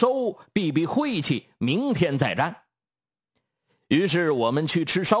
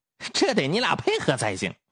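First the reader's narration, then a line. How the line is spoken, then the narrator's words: Chuckling. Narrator (Chinese): 狗剩子呵呵笑两声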